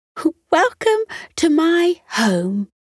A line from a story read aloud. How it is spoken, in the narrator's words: Bree announced cheerfully